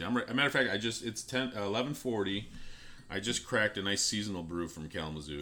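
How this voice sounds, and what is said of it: Rough, worn-sounding voice. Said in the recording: “My voice sounds bad”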